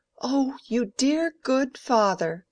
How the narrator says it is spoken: cried Mary

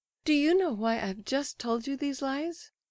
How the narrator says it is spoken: She appealed to the prince of a sudden, with the most childlike candor, and with the laugh still trembling on her lips

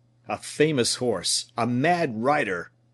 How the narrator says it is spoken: growled the captain

